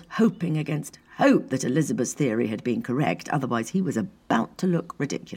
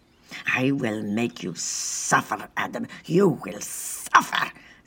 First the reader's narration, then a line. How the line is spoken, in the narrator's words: spat Diana